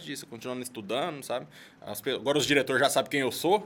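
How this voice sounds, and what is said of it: Strong Goiás Brazilian Portuguese accent. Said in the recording (Portuguese): “eu tenho um sotaque muito forte ... sotaque da gente ... sotaque goiano”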